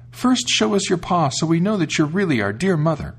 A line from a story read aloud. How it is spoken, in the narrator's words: The kids called out